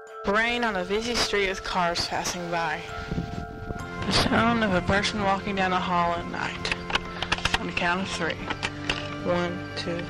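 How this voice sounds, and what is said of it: Child with twangy Texas accent. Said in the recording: “That's a very twangy Texas accent.”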